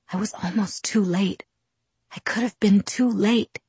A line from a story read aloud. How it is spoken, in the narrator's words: whispered, his voice tormented